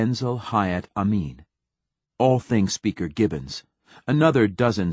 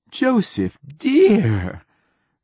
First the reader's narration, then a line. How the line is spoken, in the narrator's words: cried Wingreen Fief